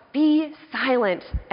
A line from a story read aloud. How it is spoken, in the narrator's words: he cries out